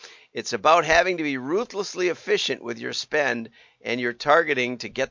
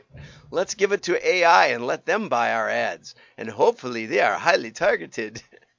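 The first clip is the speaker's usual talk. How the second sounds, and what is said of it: Made-up nonspecific accent. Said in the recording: “that's an accent of nowhere. I just made it up.”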